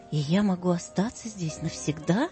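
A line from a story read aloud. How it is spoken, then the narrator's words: Plain. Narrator (Russian): спросил он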